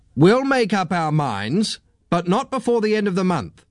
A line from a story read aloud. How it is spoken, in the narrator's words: said the chief inspector sharply